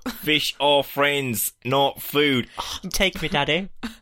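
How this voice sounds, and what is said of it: Mock Australian accent, sounds South African. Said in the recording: “The Australian accents have started... this isn't an Australian accent, nah? This is like South African or something like that”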